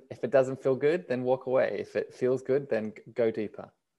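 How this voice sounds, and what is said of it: Australian accent. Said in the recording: “I love hearing your voice... Australian accent. I really like it.”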